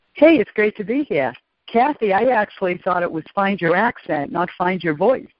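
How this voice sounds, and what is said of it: American East Coast accent. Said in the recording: “She is most definitely from the East Coast.”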